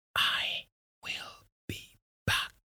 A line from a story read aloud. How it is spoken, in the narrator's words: said softly